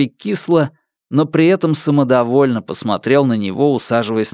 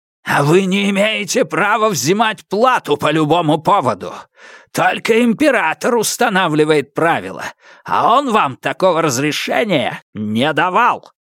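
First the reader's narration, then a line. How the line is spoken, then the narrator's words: Barked. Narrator (Russian): рявкнул Фаразар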